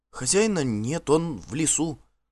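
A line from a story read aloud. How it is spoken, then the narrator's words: Timid woman. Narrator (Russian): робко подала голос одна из женщин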